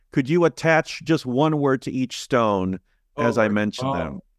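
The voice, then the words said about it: Imitates another person's voice. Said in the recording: “my James Lipton impression.”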